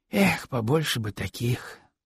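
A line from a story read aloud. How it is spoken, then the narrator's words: Sighing. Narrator (Russian): снова вздохнул Искандер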